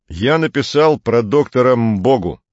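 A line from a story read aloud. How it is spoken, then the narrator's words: Plain. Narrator (Russian): сказал Атос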